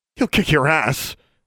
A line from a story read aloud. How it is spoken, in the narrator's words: Alexandra spat